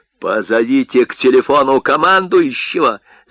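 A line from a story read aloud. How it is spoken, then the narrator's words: Furious thin commanding shout. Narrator (Russian): закричал Марта с бешеным, тонким, приказным голосом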